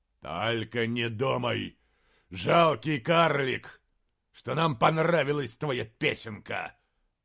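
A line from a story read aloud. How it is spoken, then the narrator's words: Growling. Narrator (Russian): прорычал король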